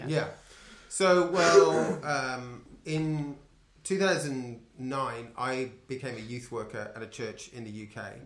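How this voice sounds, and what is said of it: Foreign accent. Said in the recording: “you guys are obviously from a different country... given the accent and the words that we don't know”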